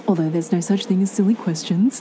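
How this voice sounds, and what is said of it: Deep radio announcer voice. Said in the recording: “radio voice”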